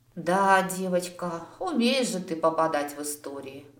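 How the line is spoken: Sighing. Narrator (Russian): вздохнула Мирая

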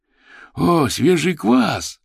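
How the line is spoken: Joyful exclaim. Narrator (Russian): радостно воскликнул Василь

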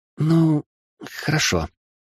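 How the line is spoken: Uncertain babbling. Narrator (Russian): неуверенно пролепетала магичка

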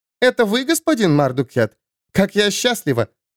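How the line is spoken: Giggling. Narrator (Russian): она хихикнула в кулачок

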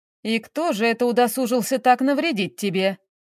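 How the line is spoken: Grandmother's mocking voice. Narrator (Russian): голос бабушки прозвучал насмешливо

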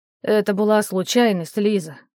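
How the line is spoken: Bitter sigh. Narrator (Russian): горько вздохнул Вадик

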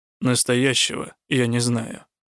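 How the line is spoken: Gloomy. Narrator (Russian): мрачно покачал головой Рук

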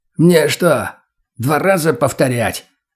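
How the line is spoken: Old man's bark. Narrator (Russian): Рявкнул старый

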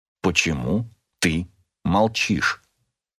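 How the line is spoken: Quiet question. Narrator (Russian): тихо спросил я

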